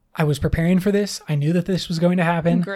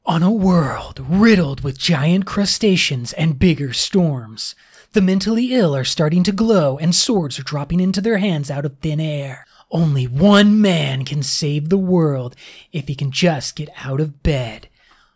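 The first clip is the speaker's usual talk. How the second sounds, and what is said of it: Dramatic movie trailer announcer voice. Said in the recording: “do your best movie trailer voice ... better movie trailer guy voices”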